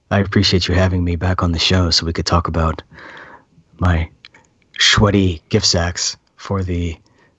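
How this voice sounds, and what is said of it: Put-on radio announcer voice. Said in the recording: “This is my radio voice... this is my Alec Baldwin. This is my Alec Baldwin.”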